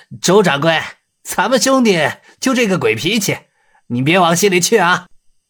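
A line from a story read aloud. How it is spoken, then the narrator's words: Laughing. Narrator (Chinese): 洪金宝笑道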